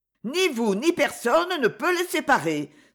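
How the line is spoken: Cry from behind. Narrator (French): s'écria une voix derrière nous

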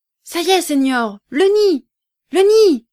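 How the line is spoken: Shouted. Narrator (French): cria Chico

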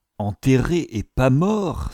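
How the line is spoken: Exclamation. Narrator (French): s'exclama Sir William

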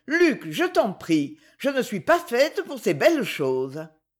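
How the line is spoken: Exclaiming. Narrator (French): s'écria-t-elle

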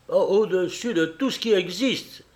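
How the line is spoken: Exclaiming. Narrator (French): s'écria Felipe

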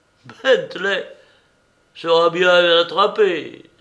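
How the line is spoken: Cheerful exclamation. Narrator (French): s'écria gaiement Frontenac

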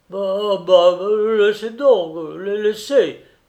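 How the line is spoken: Stammering. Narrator (French): balbutia Pietrushkov

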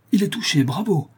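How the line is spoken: Spanish man exclaiming. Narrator (French): s'écria l'Espagnol Diaz

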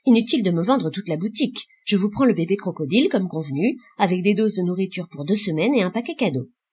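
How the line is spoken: Curt. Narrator (French): dit-il sèchement

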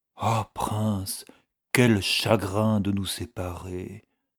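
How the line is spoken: Murmured. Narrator (French): murmurait-il

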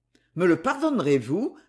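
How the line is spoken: Cheerful question. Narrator (French): demanda-t-il gaiement

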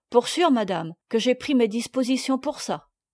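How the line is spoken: Brusque. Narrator (French): Rosalie, d'un ton brusque

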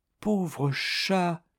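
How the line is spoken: Low voice. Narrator (French): dit Zéphirine à voix basse

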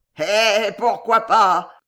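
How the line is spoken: Sneering snicker. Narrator (French): dit-il en ricanant

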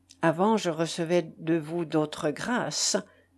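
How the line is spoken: Murmured. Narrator (French): murmurai-je

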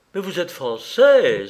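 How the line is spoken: Exclaimed. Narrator (French): s'écria-t-elle

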